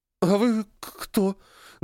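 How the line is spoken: Trembling voice, asking. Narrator (Russian): дрожащим голосом спросила Ира

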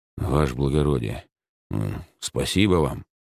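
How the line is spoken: Muttered. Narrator (Russian): пробормотал мужчина

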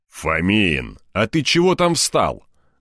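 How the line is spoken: Barked. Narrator (Russian): гаркнул он

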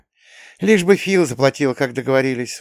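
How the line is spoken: Sighing. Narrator (Russian): вздохнула мама

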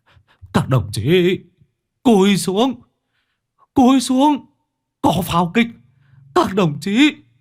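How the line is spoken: Continuous yelling. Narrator (Vietnamese): miệng không ngừng gào thét

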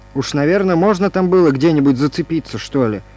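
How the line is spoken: Stern. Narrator (Russian): продолжал я строго

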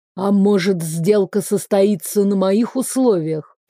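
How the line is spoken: Through gritted teeth. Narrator (Russian): процедил верховный волшебник

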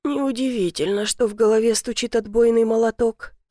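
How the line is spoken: Mumbled. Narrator (Russian): пробормотала

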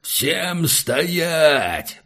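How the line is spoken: Roaring. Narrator (Russian): взревел Хунта

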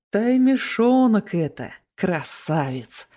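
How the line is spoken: Gentle drawl. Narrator (Russian): Ласково протянул Дмитрий

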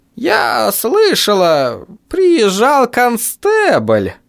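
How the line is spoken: Drawl. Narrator (Russian): протянула миссис Клэмп

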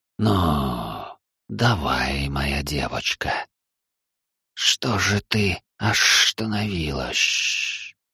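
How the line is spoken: Hissed. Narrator (Russian): Прошипел Шираки

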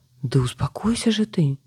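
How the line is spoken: Exclaiming. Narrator (Russian): воскликнула Беатрис

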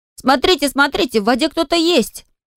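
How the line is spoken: Shouting. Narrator (Russian): Энтай закричал

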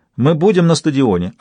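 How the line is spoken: Plain. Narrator (Russian): ответила она

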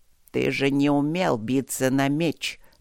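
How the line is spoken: Through gritted teeth. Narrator (Russian): процедил генерал

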